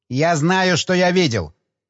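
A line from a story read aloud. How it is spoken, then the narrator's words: Snapping retort. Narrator (Russian): огрызнулся механик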